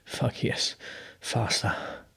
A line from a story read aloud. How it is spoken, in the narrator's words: Bruno whispered